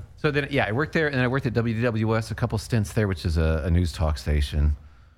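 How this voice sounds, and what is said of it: Flat, monotone speaking voice. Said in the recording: “I know I'm pretty monotone as it is”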